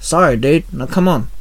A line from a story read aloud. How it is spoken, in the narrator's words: Shinzo sighed